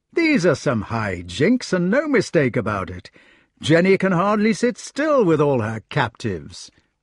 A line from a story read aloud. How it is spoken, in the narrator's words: said Arthur cheerfully